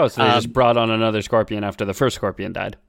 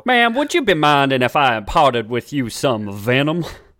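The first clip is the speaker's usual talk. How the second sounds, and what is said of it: Put-on Texan accent. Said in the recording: “This one has a real Texan accent.”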